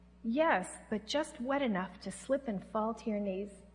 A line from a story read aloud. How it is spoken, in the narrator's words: I heard Him in a real still voice in my spirit say